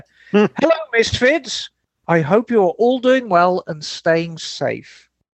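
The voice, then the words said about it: Put-on Birmingham woman's accent. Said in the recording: “I'm going to do this in an accent of a woman from Birmingham.”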